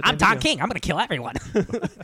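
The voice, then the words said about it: Imitates another person's voice. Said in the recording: “his best impersonation of Stan Lee”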